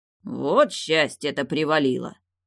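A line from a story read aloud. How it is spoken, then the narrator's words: Good-natured mutter. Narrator (Russian): беззлобно пробурчал бородач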